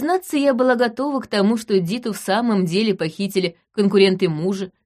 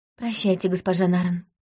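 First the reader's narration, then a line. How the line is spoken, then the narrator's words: Quiet. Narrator (Russian): тихо сказала она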